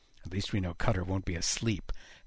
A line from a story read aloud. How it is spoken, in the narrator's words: Haddock muttered